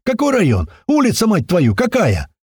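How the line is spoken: Joyful yell. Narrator (Russian): Лёха от радости заорал в ответ

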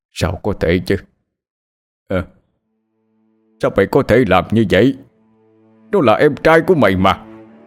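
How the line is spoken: Anguished howl. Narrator (Vietnamese): Ông Long đau lòng gào lên

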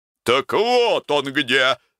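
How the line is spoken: Booming, barking voice. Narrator (Russian): загремел он своим лающим голосом

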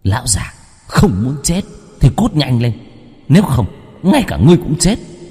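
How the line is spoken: Hissing shriek. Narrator (Vietnamese): rít lên

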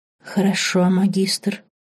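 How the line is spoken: Sorcerer whispering. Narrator (Russian): прошептал колдун

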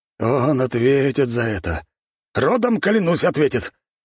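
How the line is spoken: Growl. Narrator (Russian): прорычал

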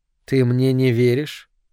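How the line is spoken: Cold question. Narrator (Russian): холодно спросила Соланж

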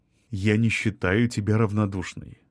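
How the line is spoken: Gentle interruption. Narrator (Russian): мягко прервал ее Артем

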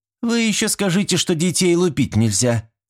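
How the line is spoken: Snide. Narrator (Russian): ехидно высказалась дама лет 40

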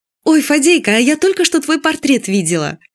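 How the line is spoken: Cheerful. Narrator (Russian): Чтобы прогнать эту печаль, Юля весело сказала

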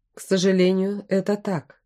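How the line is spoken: Flat, joyless tone. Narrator (Russian): ответил он бесцветным тоном и невесело усмехнулся

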